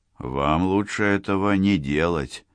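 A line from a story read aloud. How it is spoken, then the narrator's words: Soft. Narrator (Russian): сказал мягко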